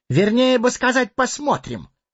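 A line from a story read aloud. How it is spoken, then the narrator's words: Squeaking hobbit. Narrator (Russian): пискнул хоббит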